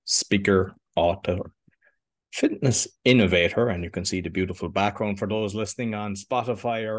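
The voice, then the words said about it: Light Irish accent. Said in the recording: “your little Irish accent”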